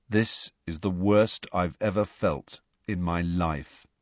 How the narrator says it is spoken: he said in a dull voice

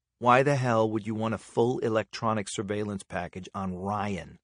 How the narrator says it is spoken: she lowered her voice and asked

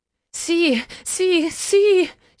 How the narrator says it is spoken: she cried

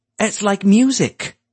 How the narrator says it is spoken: Smythe said excitedly

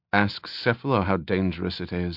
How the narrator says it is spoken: Eritrea muttered

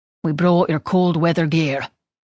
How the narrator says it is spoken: his father said in a thick voice

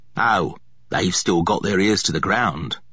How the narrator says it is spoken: Ambrose said gruffly

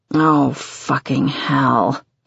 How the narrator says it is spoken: he groans

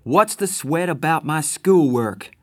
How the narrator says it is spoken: I finally shouted

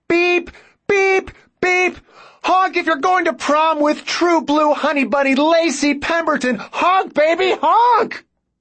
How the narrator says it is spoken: he just yelled

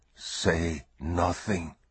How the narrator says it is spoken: he whispered in her ear

